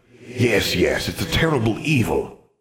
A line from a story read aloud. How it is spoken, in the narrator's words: the old wizard said